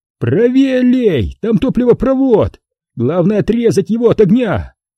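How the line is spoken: Shouting through smoke. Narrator (Russian): крикнул мне сквозь дым Эрик

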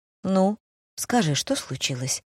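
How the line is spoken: Gentle reassuring tone. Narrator (Russian): Продолжал он все так же ласково, таким тоном, словно мог решить любую мою проблему

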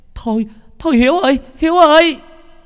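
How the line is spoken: Woman shouting. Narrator (Vietnamese): một bà hét lên

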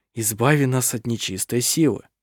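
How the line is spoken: Murmured prayer. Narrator (Russian): слышалось бормотание молитвы

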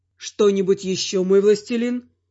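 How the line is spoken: Calm question. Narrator (Russian): спокойно спросил Марадор

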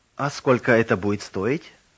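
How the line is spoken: Old man, softer voice. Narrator (Russian): более мягким голосом спросил старик

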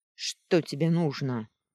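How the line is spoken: Rude, curt. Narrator (Russian): грубо бросила она ему

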